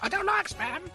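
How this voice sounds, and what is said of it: Monty Python sketch character voice. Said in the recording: “do a Monty Python sketch ... doing that voice.”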